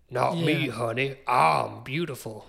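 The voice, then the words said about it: Exaggerated Louisiana Southern accent. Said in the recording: “the super forced Louisiana Southern accent.”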